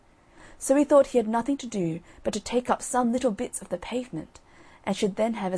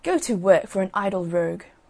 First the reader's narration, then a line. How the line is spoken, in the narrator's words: one of them said crossly